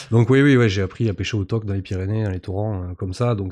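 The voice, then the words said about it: Pyrenean southern French accent. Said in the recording (French): “C'est son enfance pyrénéenne. ... On sent l'accent aussi.”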